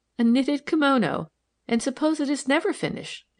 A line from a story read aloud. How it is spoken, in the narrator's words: she cried